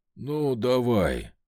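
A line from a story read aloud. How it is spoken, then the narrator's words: Tired reply. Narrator (Russian): устало ответил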